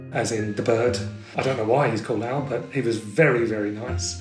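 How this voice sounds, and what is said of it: Irish accent. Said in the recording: “when he heard my accent ... Oh, you're from Ireland.”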